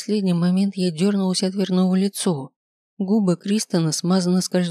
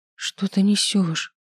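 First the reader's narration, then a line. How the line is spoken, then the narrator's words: Strangled whisper. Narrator (Russian): прошептала сдавленно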